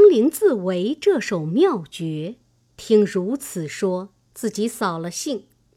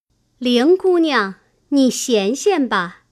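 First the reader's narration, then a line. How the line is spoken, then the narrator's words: Laughing, through a window. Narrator (Chinese): 探春隔窗笑说道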